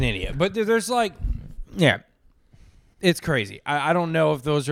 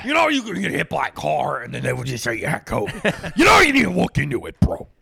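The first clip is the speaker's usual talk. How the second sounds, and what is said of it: Mocking impression of a dim-witted skeptic. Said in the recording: “doing an impression of an idiot”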